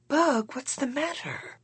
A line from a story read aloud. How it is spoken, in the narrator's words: Her tone always soothed me